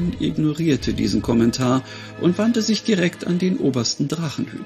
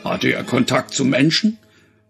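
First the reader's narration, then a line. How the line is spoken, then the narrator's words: Thunderous male voice asking. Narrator (German): wollte der Mann mit der Donnerstimme wissen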